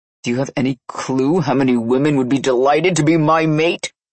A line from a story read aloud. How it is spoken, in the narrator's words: He bellowed as burning energy flowed off of him